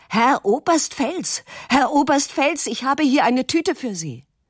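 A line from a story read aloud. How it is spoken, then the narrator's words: Shouting upward. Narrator (German): schreit zu der Klippe hinauf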